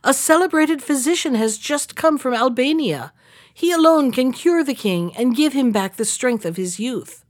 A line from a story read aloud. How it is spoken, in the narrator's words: cried